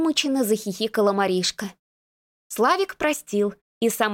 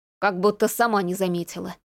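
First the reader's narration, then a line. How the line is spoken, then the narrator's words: Grumbled. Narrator (Russian): пробурчал Рас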